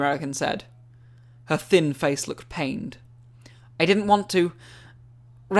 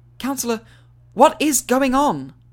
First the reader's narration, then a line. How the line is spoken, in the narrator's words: Hermione said, desperately